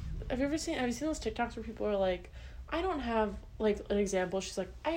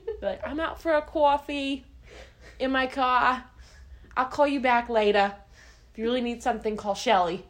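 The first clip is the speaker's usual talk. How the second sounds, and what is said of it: Put-on New Jersey accent. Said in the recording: “I don't have a New Jersey accent ... New Jersey”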